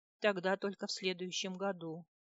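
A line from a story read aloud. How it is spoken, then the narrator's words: Sad sigh. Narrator (Russian): печально вздохнул Рерик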